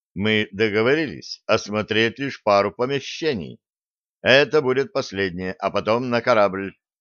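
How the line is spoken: Stern. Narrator (Russian): строго сказал Блад

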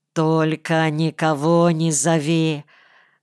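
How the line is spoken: Fading, groaning. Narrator (Russian): Уже теряя память, простонал я

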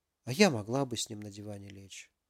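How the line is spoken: Mumbling. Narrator (Russian): пробормотала Алиса

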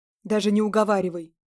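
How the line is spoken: Sharp. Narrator (Russian): резко сообщил он

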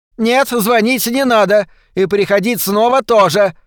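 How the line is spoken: Shouted. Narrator (Russian): выкрикнула миссис Шейфер

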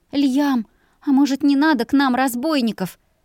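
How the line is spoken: Fearful pleading woman. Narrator (Russian): взмолилась, всем сердцем предчувствуя беду

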